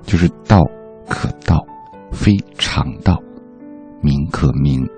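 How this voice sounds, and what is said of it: Very soft but full voice. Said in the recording (Chinese): “用这么小的声音说话的时候，你的气是可以拖得住它的...在这么小的时候说话的时候，你的发音是应该是就是。 饱满的”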